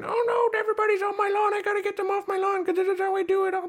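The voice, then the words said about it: Angry old lady voice. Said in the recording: “That's my angry old lady voice”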